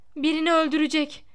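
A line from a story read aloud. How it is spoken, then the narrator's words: Shouted. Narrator (Turkish): diye bağırdı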